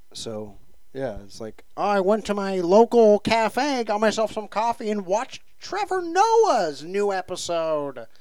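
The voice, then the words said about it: Put-on random white person voice. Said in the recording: “Can you please do an appropriate accent ... I'm just being any... random white person on WeChat.”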